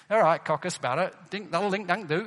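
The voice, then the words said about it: Imitated thick Chorley accent. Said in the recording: “No offense to the people of Chorley ... It's a fantastic accent, but I just couldn't understand.”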